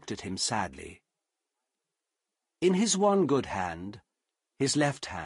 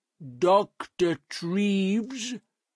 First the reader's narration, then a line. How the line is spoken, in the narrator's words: he said slowly